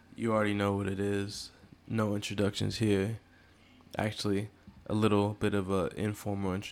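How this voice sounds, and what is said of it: Usual voice. Nothing is said of it.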